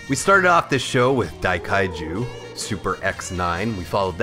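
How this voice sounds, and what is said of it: Usual voice. Nothing is said of it.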